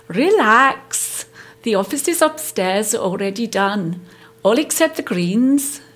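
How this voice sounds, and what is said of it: Attempted Scottish accent, slightly Welsh. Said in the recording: “She can't do a Scottish accent ... I've got one line in Scottish in the show ... I was verging on the Welsh slightly.”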